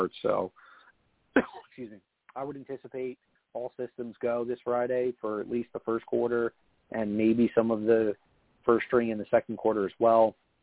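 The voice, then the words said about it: Hoarse voice. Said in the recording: “voice is getting a little hoarse”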